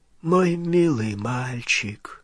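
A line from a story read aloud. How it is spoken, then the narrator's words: Weak-voiced reply. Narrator (Russian): слабым голосом отвечал Олливандер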